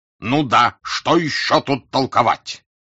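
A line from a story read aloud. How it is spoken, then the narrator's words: Heated angry shouting. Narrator (Russian): Пфуль, как в бою разгоряченный человек бьет по своим, сердито кричал и на Вольцогена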